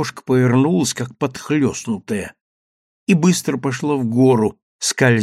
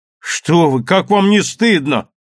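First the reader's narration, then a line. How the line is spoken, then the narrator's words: Shouted. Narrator (Russian): крикнул Гирин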